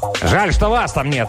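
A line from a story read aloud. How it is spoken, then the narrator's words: Barked reply. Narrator (Russian): рявкнул он в ответ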